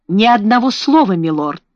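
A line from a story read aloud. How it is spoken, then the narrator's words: Cold reply. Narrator (Russian): холодно ответил адвокат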